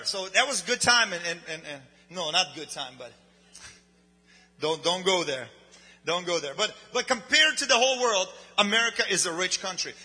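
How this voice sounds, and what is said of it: Speaks with a non-native accent. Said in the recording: “Although I have an accent”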